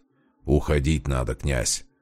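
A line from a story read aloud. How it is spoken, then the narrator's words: Gloomy grumble. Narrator (Russian): угрюмо проворчал Демьян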